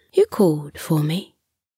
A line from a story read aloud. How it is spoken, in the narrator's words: said softly